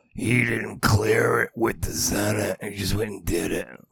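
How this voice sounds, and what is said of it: Imitates another person's voice. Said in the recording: “This is my Nancy Pelosi impression. ... Do I sound like her?”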